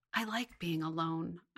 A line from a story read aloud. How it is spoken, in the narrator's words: I whispered